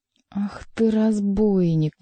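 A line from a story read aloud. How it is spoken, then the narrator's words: Angry, through clenched teeth. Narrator (Russian): гневно процедил король сквозь плотно сжатые зубы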